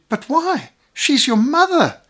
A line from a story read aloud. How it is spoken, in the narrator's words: cried this horrified woman